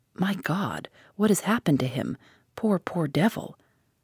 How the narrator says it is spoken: he said softly

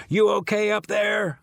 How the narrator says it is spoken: I yell to her

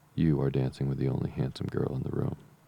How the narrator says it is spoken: said Mr

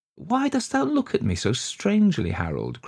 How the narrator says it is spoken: cried Iseult

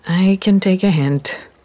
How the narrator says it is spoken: I sighed

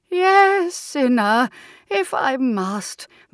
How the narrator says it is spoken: moaned the ghost of Aunt Violet

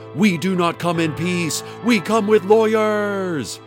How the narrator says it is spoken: Hadassah screamed at Dana

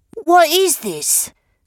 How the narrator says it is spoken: cried Mr

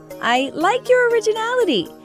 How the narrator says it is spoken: Grandmother Fa says with a laugh

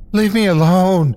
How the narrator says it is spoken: I screamed with the little air left in my chest

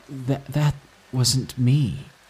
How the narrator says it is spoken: he stammered out

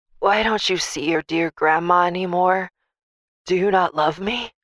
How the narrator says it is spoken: she'd croak over the phone

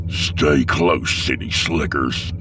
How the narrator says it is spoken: he growled

